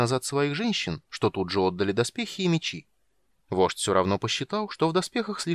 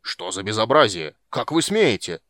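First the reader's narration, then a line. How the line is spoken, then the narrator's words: Roaring while struggling. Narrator (Russian): взревел, пытаясь вырваться из сильных рук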